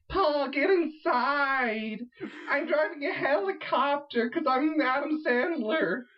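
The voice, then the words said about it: Exaggerated put-on Jewish accent. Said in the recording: “dressed as a woman. And he's doing his terrible Jewish accent.”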